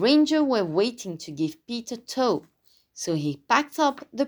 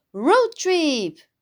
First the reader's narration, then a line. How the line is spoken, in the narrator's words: cried Pete